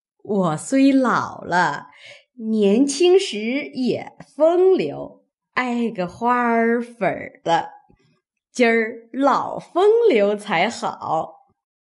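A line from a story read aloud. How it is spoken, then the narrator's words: Old woman laughing. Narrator (Chinese): 刘姥姥笑道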